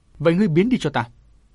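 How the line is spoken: Loud shout. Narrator (Vietnamese): Chàng quát lớn

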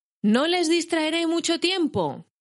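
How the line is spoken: Shout amid applause. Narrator (Spanish): gritó Bilbo entre aplausos

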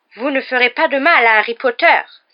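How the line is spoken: Cried out. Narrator (French): s'écria Dobby

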